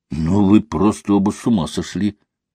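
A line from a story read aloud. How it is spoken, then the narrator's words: Quiet. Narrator (Russian): тихо произнес Митя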